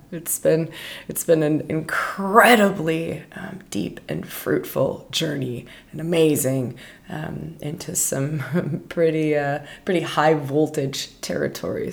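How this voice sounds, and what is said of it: Raw, strained voice. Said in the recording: “You'll have to excuse my voice in this episode ... my voice is so raw ... pardon me if my voice is goofy or it doesn't feel like it's a normal”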